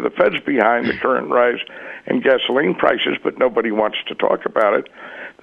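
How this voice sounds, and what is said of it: Strained voice giving out. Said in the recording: “my voice is beginning to ... maybe you get a sip of water or so until you can get out of this uncomfortable situation”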